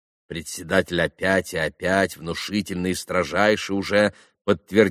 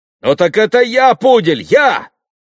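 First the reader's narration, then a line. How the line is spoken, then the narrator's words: Shout. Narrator (Russian): крикнул Митя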